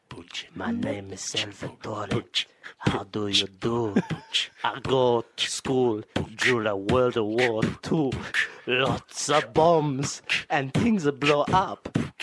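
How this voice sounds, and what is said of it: Soft whispered rap, Italian accent. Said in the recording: “Let me do an Italian rapper ... can we do a whisper rap? ... let's do a softer rap.”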